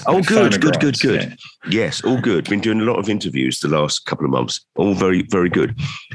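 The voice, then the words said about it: Voice congested from a cold. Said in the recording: “I've got a bit of a cold actually, you might hear in my voice. ... I can hear.”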